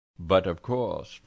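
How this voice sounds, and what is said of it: Put-on French accent. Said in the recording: “in her own French accent”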